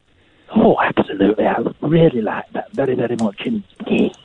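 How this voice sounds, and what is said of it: Silly camp voice. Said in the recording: “a man doing a silly camp voice”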